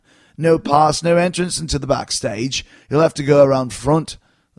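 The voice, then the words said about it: Bad put-on Scouse English accent. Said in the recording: “That's the worst English accent ever, especially a Scouser accent”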